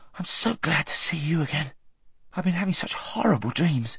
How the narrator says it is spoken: gasped Shasta

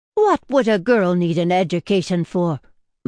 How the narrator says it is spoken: my mother exclaimed

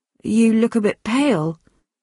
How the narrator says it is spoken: went on anxiously

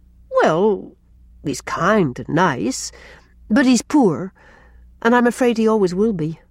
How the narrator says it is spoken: faltered Rilla

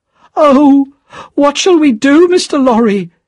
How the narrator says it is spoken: she cried

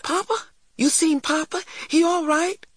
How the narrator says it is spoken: cried Christopher John breathlessly

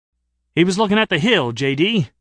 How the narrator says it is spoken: the fat guy protested a little hotly

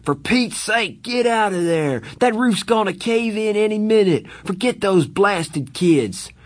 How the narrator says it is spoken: he screamed

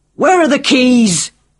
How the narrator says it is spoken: screamed

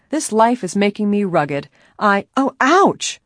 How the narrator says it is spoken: she cried loudly

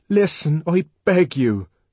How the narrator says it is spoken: cried the savage earnestly

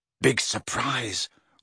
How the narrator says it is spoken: whispered Ron

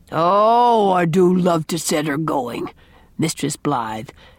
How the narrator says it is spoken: chuckled the unrepentant sinner

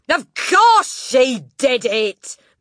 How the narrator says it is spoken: Miss Trunchbull boomed

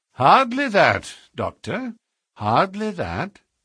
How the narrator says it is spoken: said Holmes in his blandest voice

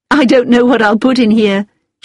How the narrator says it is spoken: she said with a laugh

